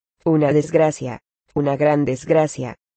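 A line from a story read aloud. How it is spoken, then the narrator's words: Desperate exclamation. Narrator (Spanish): exclamar desesperada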